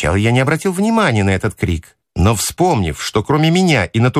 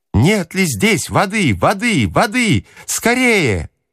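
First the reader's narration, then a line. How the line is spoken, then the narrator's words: Desperate shouting. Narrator (Russian): кричал он почти с отчаянием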